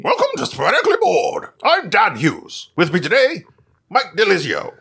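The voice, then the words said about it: Imitation in a British accent. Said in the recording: “a weird British accent ... He does pretty good.”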